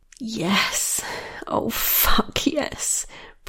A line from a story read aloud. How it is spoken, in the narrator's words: breathed Michaela